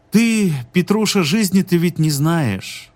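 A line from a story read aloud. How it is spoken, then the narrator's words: Lazy speech. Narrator (Russian): лениво сказала Варвара Маргарита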